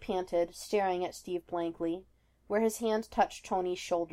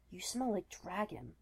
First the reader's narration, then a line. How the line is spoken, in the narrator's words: whispered